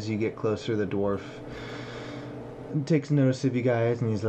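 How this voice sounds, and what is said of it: Usual voice. Nothing is said of it.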